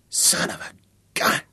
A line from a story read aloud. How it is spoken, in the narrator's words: he said softly